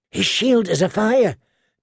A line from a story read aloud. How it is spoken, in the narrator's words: Gendry said in a hushed voice